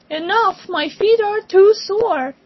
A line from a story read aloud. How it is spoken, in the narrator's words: the king cried